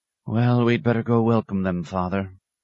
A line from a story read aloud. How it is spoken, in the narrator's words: he sighed